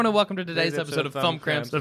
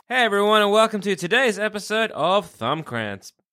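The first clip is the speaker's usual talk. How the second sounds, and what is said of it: Slurred words. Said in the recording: “You're doing it, but you're slurring it.”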